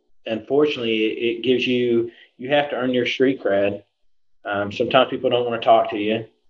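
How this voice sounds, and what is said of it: Southern American accent. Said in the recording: “The downside is the Southern accent, you're right.”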